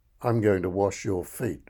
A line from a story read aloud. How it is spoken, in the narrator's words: replied Jesus